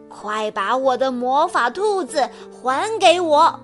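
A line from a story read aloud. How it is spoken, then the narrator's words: Angry shout. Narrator (Chinese): 他愤怒的大喊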